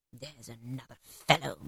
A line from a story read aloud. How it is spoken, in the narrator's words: muttered Scrooge